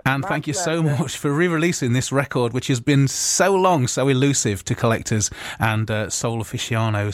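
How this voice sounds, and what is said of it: Speaks with a distinct accent. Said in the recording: “that beautiful accent”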